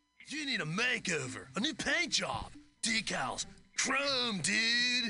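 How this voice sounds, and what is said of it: Laid-back hippie surfer voice. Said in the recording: “check out this guy's hippie voice, surfer voice”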